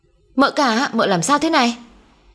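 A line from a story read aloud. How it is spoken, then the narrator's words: Panicked shout. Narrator (Vietnamese): Hoảng quá nó hét lên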